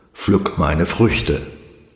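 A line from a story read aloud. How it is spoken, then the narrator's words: Plain. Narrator (German): antwortete dieser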